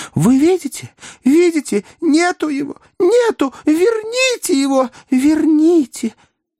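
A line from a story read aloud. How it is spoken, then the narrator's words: Shrieking cry. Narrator (Russian): Красавица-секретарь взвизгнула и вскричала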